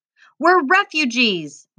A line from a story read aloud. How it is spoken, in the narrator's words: Mahmoud yelled, unable to stay silent any longer